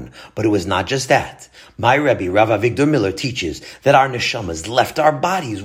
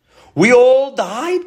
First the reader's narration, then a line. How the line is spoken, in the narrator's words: shouted